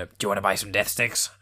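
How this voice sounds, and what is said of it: Poor impression of a movie character. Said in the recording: “that terrible impression”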